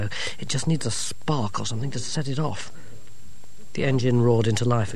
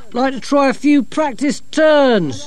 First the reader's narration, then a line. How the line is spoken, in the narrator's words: shouted Dorcas